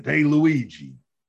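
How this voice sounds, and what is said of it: Gruff Brooklyn accent. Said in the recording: “he had like a gruff Brooklyn accent.”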